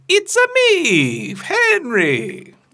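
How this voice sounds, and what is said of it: Imitates Mario's Italian-accented voice. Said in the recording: “I feel like I should try the voice, too. ... That's better than mine. ... That was good.”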